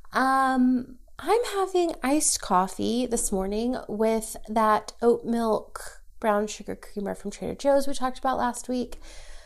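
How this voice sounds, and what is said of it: Congested, stuffy voice from a cold. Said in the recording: “If you can't tell by my voice, have a cold ... I'm stuffy”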